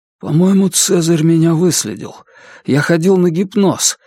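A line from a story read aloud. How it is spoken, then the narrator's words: Frightened speech. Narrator (Russian): испуганно заговорил Мартин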